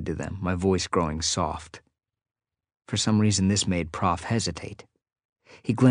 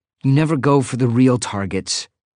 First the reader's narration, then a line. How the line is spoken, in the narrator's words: I said bitterly